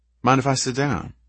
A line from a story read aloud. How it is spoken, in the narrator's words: she asked